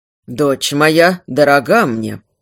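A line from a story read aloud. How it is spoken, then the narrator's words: Cold reply from king. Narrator (Russian): холодно ответил король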